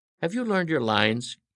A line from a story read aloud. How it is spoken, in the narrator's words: Cassie asked anxiously